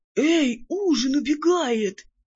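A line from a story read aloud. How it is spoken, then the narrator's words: Strange-voiced yell. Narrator (Russian): не своим голосом завопил Кузьмай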